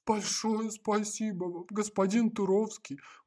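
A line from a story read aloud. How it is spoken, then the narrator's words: Joyful old man exclaiming. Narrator (Russian): воскликнул обрадованный старик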